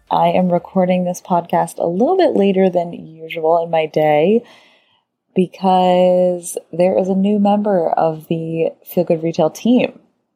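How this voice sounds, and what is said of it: Whispering, hushed voice. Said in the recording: “If I sound like I'm whispering, I might just be doing that”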